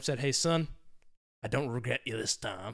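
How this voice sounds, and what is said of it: Imitates another person's voice. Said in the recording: “I tried to put on an accent. He sounds like me.”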